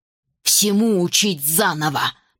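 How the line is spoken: Grumbling. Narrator (Russian): проворчал барон де Рец

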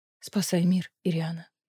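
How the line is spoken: Whispered. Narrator (Russian): прошептал

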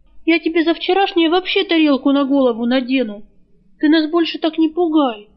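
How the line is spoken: Girl's trembling plea. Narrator (Russian): дрогнувшим голосом попросила девушка

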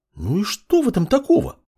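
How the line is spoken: Indignant exclamation. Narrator (Russian): Возмущенно воскликнула девушка

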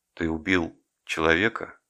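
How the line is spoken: Tired. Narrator (Russian): сказал я устало

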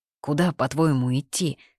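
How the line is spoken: Plain question. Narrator (Russian): спросил он

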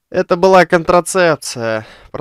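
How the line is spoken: Groan with a headache. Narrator (Russian): простонал я, чувствуя, как начинает болеть голова

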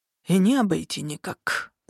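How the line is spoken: Thoughtful dwarf grumble. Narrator (Russian): задумчиво, никому не обращаясь, буркнул гном

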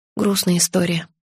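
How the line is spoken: Sighing. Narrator (Russian): вздохнула я

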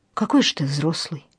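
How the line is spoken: Barely audible. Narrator (Russian): еле слышно проговорила я

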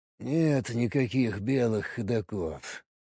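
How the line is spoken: Grumble. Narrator (Russian): буркнул Марик

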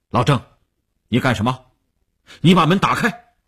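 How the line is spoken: Stern command. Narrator (Chinese): 吴长天厉声喝令

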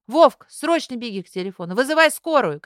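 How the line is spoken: Shouting. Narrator (Russian): кричала Улька

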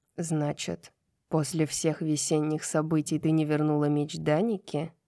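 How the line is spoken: Quiet question. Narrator (Russian): Тихо спросил Волк

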